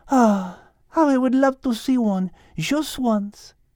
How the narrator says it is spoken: sighed Liz

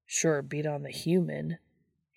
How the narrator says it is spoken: he grumbles

